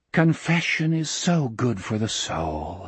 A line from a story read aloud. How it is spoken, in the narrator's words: he whispered